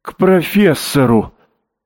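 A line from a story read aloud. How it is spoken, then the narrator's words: Exclaiming. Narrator (Russian): воскликнула Марта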